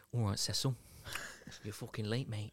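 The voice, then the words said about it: Put-on Nottingham accent. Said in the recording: “such a good Nottingham accent”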